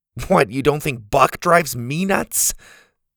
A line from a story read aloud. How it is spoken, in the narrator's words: Buck growled at him